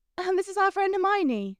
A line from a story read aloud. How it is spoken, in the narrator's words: Lavender said eagerly